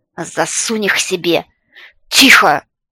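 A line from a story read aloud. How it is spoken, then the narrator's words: Loud exasperated bark. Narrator (Russian): Люд уже не выдержал и рявкнул во все горло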